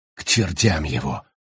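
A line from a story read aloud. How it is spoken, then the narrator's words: Mutter. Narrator (Russian): пробормотал Паркер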